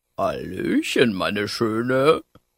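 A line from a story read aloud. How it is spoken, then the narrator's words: Grunting. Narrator (German): grunzte es hinter einem Blaubeerbusch hervor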